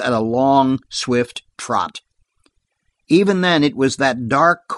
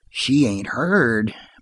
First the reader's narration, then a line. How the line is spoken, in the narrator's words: muttered Dan to Bart